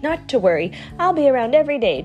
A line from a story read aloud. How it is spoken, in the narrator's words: chirped the bird